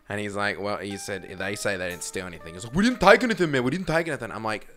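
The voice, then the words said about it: Put-on accent voicing another man. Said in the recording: “I'm just going to do an accent”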